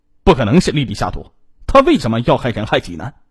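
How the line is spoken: Indignant protest, husband. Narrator (Chinese): 她的丈夫杨安波挺身而出为妻子喊冤

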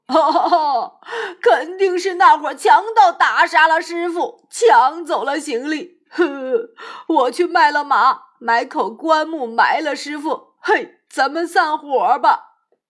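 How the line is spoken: Bitter weeping. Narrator (Chinese): 八戒捶胸痛哭说

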